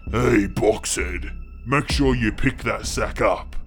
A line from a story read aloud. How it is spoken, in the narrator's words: one of the others say, in a deep voice